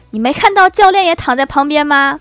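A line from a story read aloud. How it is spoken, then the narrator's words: Shouting. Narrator (Chinese): 对方对着我又喊道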